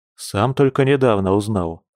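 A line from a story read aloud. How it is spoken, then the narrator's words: Calm, casual. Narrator (Russian): спокойно пожал плечами брат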